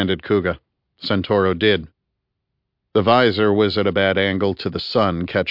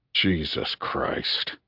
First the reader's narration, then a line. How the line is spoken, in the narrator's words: breathed